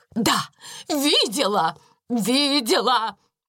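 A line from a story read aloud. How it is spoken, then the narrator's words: Shouted. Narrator (Russian): крикнула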